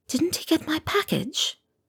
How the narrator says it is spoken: whispered

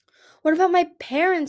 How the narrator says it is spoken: he said frantically

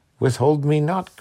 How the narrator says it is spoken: cried he

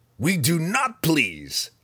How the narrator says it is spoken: Breeza snapped, more at her sisters than at Zach

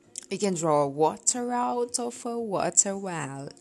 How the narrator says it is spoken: said the Hatter

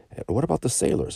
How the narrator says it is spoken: asked Don Lorenzo anxiously

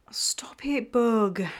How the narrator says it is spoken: she whined

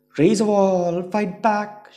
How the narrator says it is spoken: yelled

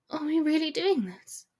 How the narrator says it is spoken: asks, barely a whisper

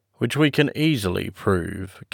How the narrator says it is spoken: came in Sir Arthur Inglewood's drawly tones

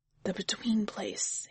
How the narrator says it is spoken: whispers

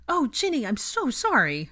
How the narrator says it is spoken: Hermione cried

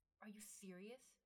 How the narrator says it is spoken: Ymir hissed

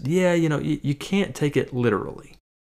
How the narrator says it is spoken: President Bartlet chuckles and says

